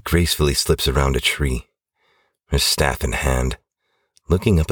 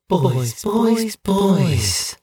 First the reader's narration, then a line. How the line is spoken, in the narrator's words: purrs the enchantress